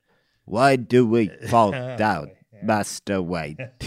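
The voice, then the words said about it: Poor Michael Caine impression. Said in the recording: “a little bit of your Michael Caine, which is not a good impression either”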